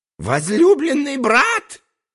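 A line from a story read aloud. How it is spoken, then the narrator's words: Shrieked. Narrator (Russian): завизжал тогда Дальбена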